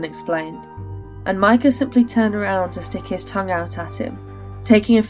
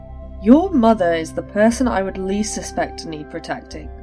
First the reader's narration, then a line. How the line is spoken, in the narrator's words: Kaelin sighed